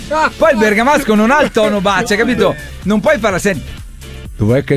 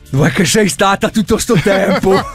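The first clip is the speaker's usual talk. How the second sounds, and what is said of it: Warmer put-on Bergamasco accent. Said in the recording (Italian): “prova a dirla, no! più caldo con accento bergamasco”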